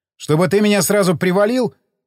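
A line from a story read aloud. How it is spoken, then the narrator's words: Shouted back. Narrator (Russian): крикнул я в ответ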